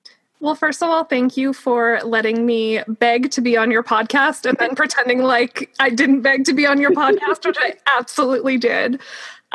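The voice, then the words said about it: Excited, eager voice. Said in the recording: “I'm like geeking out to be here, as you can probably tell from my voice.”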